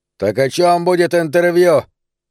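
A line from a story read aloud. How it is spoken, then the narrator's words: Gruff bark. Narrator (Russian): рявкнул гангстер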